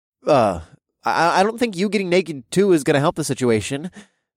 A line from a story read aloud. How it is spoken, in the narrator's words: I blurted out